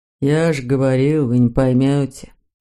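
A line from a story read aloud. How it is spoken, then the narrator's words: Muttering. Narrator (Russian): пробурчал Хемель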